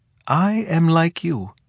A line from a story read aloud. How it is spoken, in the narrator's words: he said, in that dream voice which tries to reveal its own untruth